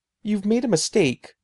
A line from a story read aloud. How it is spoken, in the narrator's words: I cried